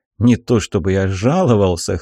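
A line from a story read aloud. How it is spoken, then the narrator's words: Wry snort. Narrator (Russian): хмыкнул я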